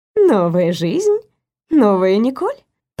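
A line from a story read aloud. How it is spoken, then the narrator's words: Purring. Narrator (Russian): промурлыкала Элис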